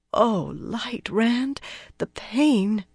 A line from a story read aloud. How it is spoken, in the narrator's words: Min murmured in a hurt voice